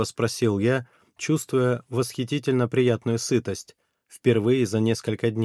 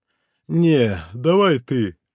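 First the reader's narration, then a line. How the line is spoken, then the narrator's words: Sleepy yawning. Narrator (Russian): зевнул сонно Ванька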